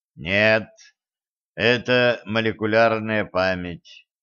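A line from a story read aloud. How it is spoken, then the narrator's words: Tired reply. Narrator (Russian): устало отозвался Кощей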